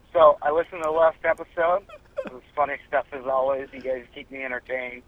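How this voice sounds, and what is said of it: Rough, hoarse voice from a cold. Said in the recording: “Just suffered from a cold recently ... we can tell. ... My voice is a little rough, especially my throat right now.”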